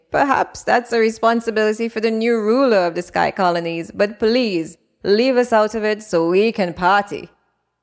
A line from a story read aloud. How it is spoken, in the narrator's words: the top royals scoffed and laughed, exclaiming